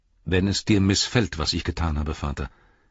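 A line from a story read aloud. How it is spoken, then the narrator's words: Calm. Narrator (German): sagte Faramir ruhig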